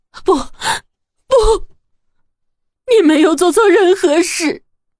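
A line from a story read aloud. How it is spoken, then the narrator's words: Tearful apology. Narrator (Chinese): 郑小丽也哭着道歉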